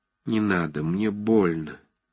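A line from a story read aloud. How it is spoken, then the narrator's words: Sad. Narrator (Russian): произнес он печально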